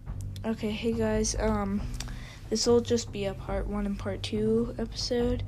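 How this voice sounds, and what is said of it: Fading, strained voice. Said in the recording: “my voice is starting to die away”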